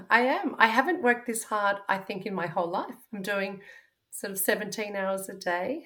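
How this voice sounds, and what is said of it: Slightly croaky, hoarse voice. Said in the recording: “my voice is a bit croaky”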